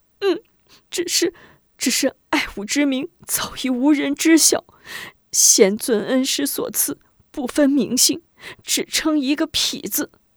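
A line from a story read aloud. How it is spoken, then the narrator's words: Crying. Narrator (Chinese): 爱五子哭着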